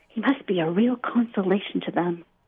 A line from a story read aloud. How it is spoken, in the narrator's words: the neighbors whisper